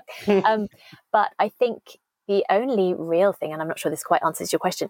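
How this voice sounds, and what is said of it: Fast British accent. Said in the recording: “I can still waffle very fast in a very obviously British accent”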